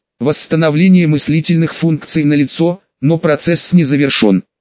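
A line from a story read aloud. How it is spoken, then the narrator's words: Skeptical snort. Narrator (Russian): хмыкнул Хорст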